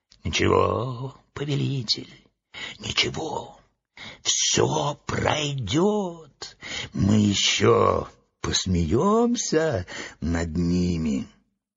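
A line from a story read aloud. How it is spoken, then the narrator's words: Whispering in ear. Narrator (Russian): клоун Эотлинг шептал на ухо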